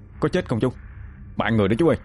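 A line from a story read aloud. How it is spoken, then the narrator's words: Quiet question. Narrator (Vietnamese): Phúc khẽ hỏi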